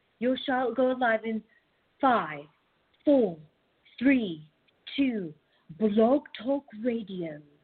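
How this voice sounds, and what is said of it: Imitates an automated female announcer voice. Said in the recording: “I would do a really good impression of that woman”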